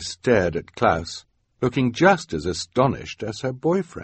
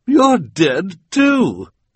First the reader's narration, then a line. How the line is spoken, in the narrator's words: cried